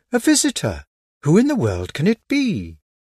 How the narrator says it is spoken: Everyone would at once exclaim

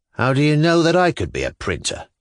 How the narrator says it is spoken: Shatov asked sullenly

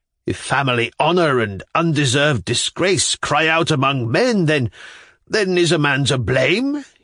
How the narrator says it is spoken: he roared suddenly, forgetting himself as before

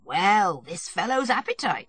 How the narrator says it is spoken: said Stepan Arkadyevitch, laughing

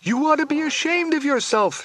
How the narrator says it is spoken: she screams

